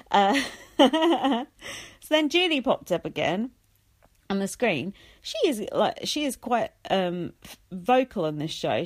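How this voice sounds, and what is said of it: English accent. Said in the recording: “an English accent”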